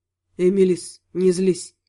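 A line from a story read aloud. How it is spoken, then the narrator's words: Quiet. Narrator (Russian): тихо сказал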